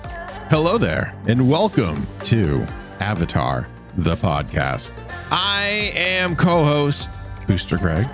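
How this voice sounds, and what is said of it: Flat monotone delivery. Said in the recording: “We're very, very monotone today.”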